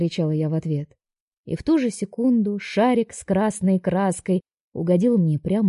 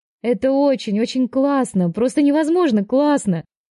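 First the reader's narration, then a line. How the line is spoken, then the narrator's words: Shouted. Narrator (Russian): прокричала я Алексу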